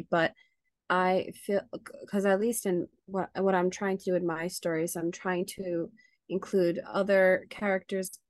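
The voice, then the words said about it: Hoarse, fading voice. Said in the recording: “my voice is leaving me.”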